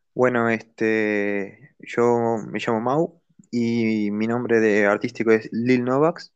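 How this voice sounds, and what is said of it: Foreign Spanish accent, non-Mexican. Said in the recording (Spanish): “el acento de nuestro amigo es de otro país”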